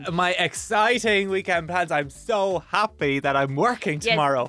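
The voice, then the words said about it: Fake excited voice. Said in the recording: “Don't do the fake voice.”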